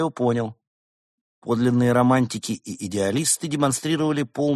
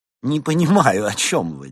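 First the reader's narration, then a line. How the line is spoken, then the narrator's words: Fake laugh. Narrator (Russian): деланно рассмеялся ягуар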